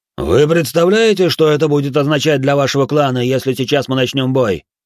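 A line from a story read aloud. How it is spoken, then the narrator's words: Urgent, pleading shout. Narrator (Russian): выкрикнул Томео, взывая к благоразумию старого карателя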